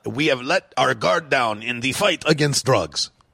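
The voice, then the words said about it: Poor put-on French accent. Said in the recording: “that's a terrible French accent”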